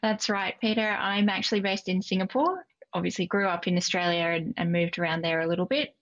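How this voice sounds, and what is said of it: Strong Australian accent. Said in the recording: “You've got a very Aussie accent”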